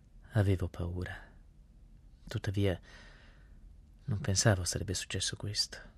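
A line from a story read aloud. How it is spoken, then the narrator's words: Calm, barely audible. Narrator (Italian): accolse la notizia tranquillamente, dicendo a voce appena udibile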